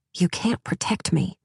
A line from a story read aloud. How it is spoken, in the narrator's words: I said quietly